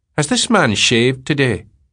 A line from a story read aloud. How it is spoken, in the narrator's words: the colonel says in his pettish voice